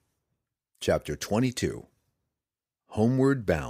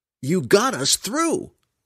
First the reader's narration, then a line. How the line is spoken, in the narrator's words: Brother Herschel cried